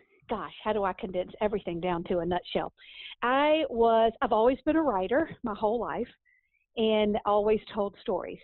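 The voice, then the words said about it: Southern American accent. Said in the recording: “you being a Southern belle ... The accent will clue them in pretty quick.”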